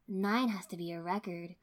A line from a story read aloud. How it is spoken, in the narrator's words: Kurenai said, a tad wistfully